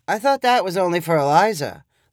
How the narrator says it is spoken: Leo lazily replied

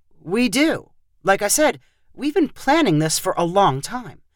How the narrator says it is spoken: Michael replied in a slightly defensive voice

